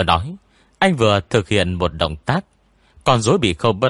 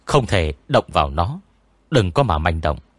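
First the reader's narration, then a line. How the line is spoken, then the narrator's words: Soft murmur. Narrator (Vietnamese): khẽ khàng nói với tôi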